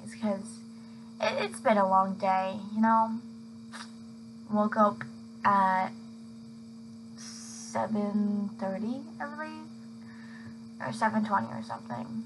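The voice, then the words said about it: Tired, fading voice. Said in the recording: “my voice is like dying”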